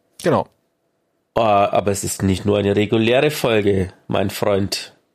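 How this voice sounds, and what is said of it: Slightly odd, congested-sounding voice. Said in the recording (German): “dass ich ein bisschen äh, komisch klinge, aber ich bin mal wieder erkältet”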